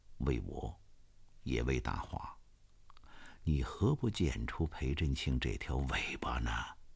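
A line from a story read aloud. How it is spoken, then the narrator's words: Hushed voice. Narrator (Chinese): 杜奇龟压低了嗓音说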